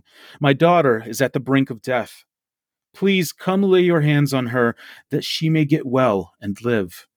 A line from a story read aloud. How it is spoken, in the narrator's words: pleaded earnestly with him, saying